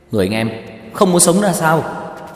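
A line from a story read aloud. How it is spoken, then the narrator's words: Shocked shout. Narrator (Vietnamese): Tiêu Dật Vân trợn mắt há mồm hét lên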